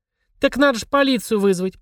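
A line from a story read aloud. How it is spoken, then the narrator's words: Yelling. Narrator (Russian): продолжала вопить Евелина Иннокентьевна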